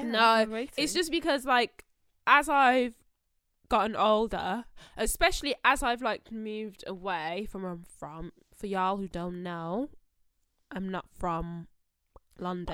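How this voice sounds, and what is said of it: Strong regional English accent. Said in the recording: “With that accent? ... It's not that strong. ... Anymore. ... Yeah, I still think it's strong. ... Wolver.”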